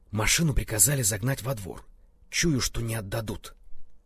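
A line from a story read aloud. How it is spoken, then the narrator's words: Whisper. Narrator (Russian): шепнул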